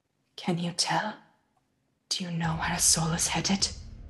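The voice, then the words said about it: Lowered, quiet voice. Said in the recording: “I lower my voice.”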